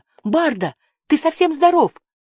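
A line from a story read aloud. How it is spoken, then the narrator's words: Exclaimed. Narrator (Russian): воскликнула Жасмин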